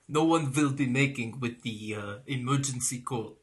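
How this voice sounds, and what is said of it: Put-on Russian accent. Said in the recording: “the Russian accent ... funny voice”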